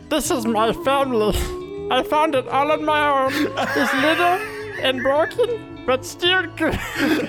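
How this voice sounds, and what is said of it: Cartoon alien creature voice. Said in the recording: “do a Stitch impression ... that was like kind of Gollum and kind of Stitch, but I'll give it to you. Not bad.”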